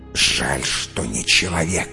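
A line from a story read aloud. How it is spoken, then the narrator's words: Vicious hiss. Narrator (Russian): злобно прошипела Крусада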